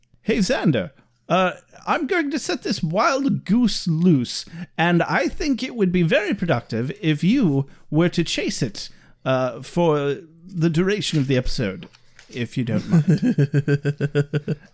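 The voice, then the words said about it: British accent impression of. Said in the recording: “Gosh, when you say it in a British accent”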